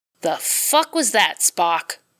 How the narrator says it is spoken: Jim spat

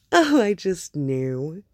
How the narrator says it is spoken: Padme would have laughed charmingly and said

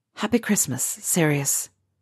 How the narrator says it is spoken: Harry said softly

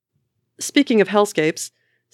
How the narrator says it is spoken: says Hope

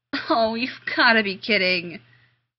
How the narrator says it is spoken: Rodney groaned

